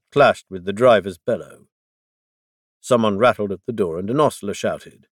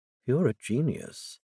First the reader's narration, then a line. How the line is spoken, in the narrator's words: Dazel repeated